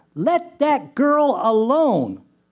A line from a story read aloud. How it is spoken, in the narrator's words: a man's voice shouted